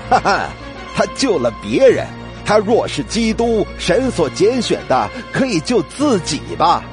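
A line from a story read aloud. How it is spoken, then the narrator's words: Mocking jeer. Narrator (Chinese): 官府也嗤笑他说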